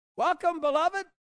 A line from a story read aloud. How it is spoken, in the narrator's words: she will shout